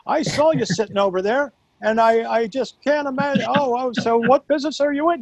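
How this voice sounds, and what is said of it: Imitates another person's voice. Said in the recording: “doing the Larry David voice”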